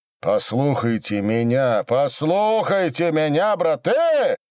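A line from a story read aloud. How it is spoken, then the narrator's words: Clanging, grating shout. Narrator (Russian): Лязгая невозможным голосом своим, от которого у пожарского в ухе зудело, кричал Осип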